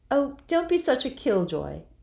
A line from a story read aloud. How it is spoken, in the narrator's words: said Jo brightly